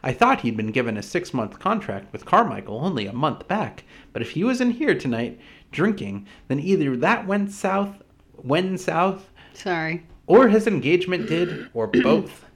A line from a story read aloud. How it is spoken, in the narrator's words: she said